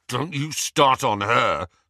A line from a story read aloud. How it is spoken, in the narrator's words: snarled Ron